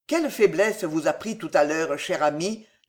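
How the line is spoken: Plain question. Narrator (French): demanda alors Marillac

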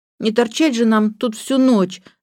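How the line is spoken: Whining. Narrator (Russian): захныкала Джейн

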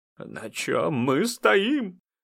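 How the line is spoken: Hoarse whispered question. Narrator (Russian): хриплым шепотом спросила Крылова

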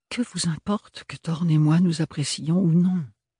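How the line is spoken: Sighed. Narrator (French): soupira Ophélie

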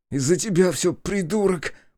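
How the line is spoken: Angry hiss. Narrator (Russian): прошипел брат

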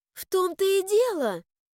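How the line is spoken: Impatient exclamation. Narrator (Russian): нетерпеливо воскликнула я

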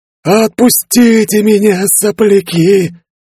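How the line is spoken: Creaky rasp. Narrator (Russian): проскрипела мумия

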